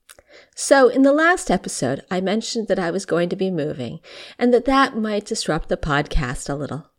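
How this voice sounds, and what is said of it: Slightly rough voice. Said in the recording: “my voice sounds a bit rough. I'm getting over COVID.”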